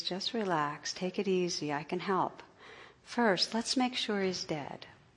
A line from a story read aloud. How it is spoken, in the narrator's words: The operator, in a calm, soothing voice, says